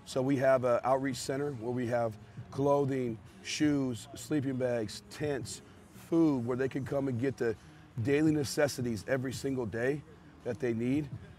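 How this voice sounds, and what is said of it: Hoarse, strained, weak voice. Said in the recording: “my voice sounds so weird right now, but I'm losing it”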